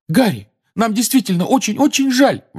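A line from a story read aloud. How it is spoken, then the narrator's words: Desperate exclamation. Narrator (Russian): в отчаянии воскликнула Гермиона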